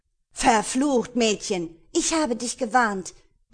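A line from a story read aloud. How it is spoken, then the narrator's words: Horrified shout. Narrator (German): rief entsetzt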